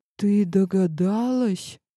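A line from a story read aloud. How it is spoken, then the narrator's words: Confused mutter. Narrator (Russian): растерянно пробормотал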